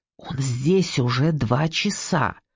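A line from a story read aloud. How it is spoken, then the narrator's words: Whispering. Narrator (Russian): прошептала Сильвия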